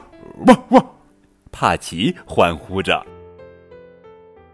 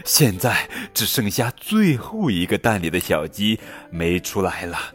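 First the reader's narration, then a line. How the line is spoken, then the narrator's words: Breathless. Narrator (Chinese): 珍妮气喘吁吁地说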